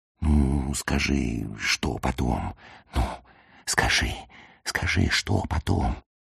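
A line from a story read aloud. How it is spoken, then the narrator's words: Whisper. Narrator (Russian): Шептал я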